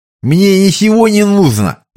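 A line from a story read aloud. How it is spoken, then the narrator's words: Toothless lisp. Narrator (Russian): прошепелявил Вуди беззубым ртом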